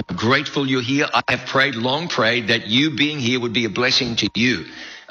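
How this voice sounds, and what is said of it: Southern American accent. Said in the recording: “that guy sounded like he's not from around here ... the guy who had the real Southern accent. The real Southern accent.”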